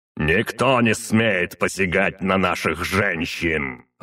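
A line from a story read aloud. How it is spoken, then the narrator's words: Growled. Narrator (Russian): рыкнул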